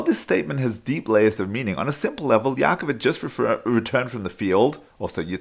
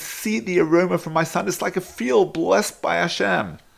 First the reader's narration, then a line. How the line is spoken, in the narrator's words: Yitzchak exclaimed